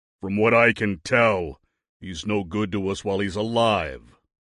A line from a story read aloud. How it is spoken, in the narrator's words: Big Guy growled